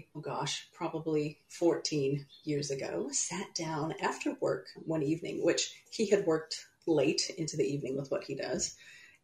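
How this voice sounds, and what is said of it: American accent. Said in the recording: “My accent is not New Zealand, so I'm from the U.S.”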